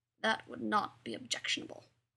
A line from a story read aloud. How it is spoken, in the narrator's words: Spock muttered